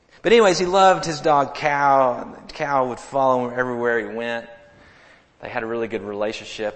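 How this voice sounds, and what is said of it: Arkansas accent. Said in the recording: “Not Cow, C-O-W. I'm from Arkansas. Y'all should understand my accent.”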